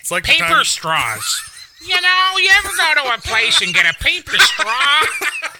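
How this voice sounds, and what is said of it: Imitates another person's voice. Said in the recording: “It'd sound like Andy Rooney for crying out loud. ... That was a very good impersonation.”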